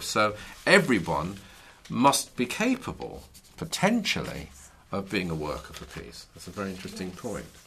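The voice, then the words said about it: Scottish accent. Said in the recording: “Is that a New York accent I picked up from... That's not quite New York... it's a bit closer to home than that. Up above the borders... Scottish.”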